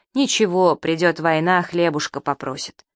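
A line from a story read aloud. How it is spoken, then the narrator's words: Spiteful muttering. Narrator (Russian): Приговаривала, злобно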